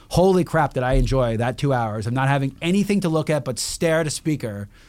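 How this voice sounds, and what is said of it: Loud, yelling voice. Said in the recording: “I'm probably still half deaf, that's why I'm yelling.”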